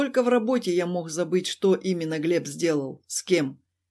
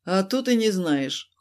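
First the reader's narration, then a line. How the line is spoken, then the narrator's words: Cold. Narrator (Russian): холодно ответил я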